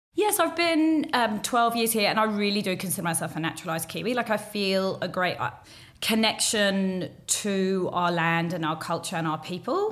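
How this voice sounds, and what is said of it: Hard-to-place accent. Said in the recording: “her accent is kind of hard to place”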